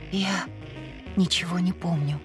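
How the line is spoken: Hoarse admission. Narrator (Russian): хрипло призналась я

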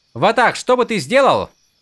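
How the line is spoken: Loud. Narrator (Russian): громко продолжила Шалан

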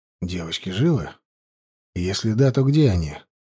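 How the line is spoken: Calm question. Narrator (Russian): спокойным тоном спросил я

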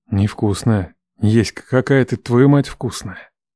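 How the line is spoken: Breathed against lips. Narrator (Russian): он выдохнул мне в губы

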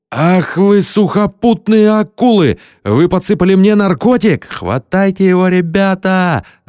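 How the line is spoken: Yelling. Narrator (Russian): заорал Слим

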